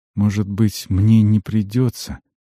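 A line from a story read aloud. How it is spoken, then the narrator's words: Quiet. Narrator (Russian): сказал Альмар тихо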